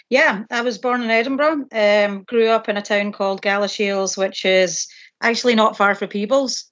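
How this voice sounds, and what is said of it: Scottish accent. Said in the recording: “people will obviously recognize your Scottish accent.”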